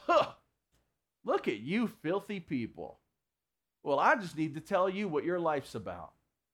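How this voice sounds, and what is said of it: Slight put-on twang. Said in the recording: “Is that a little twang in there? Didn't mean for there to be a twang in there.”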